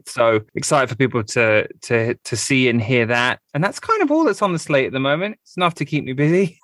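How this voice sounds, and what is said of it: English accent. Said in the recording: “you still got the accent? ... I've been kind of more around English people than normally ... it's probably stronger than it normally is at the moment”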